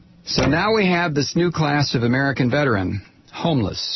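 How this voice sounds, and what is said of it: Usual voice. Nothing is said of it.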